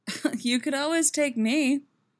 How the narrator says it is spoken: she laughs

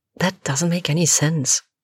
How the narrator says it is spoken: Alex mutters

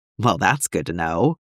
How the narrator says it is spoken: Quinlan muttered

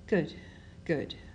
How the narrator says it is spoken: Ben mumbles to himself

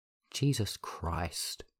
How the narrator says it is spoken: Minho muttered

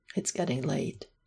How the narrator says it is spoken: murmured

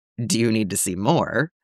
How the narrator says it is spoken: he asks dryly

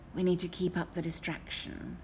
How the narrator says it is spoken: Crowley whispered in Aziraphale's ear

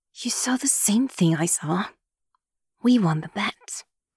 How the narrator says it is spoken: Yumi says in a low voice through gritted teeth so as not to draw attention

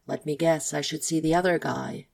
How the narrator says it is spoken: Kyle asks

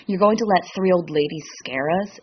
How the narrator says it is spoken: Dean scoffs

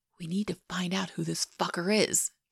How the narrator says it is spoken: JJ whispers

